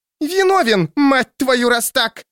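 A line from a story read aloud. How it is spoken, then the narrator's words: Shrieking. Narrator (Russian): визжала она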